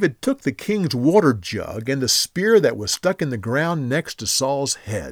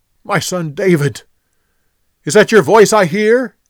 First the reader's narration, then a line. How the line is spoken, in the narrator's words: Saul yelled back